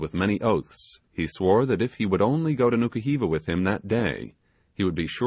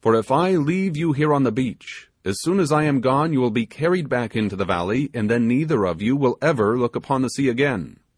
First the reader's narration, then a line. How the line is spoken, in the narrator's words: exclaimed the sailor